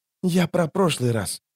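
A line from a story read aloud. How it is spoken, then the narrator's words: Male whisper. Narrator (Russian): шепнул он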